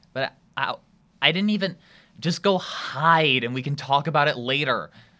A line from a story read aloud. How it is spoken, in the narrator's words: Shermie hisses